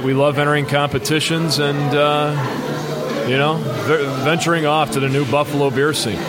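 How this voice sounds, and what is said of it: Polished radio-announcer voice. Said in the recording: “you win for best radio voice”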